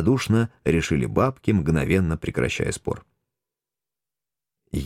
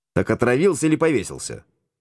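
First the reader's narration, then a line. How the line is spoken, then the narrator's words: Stern question. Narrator (Russian): строго переспросил я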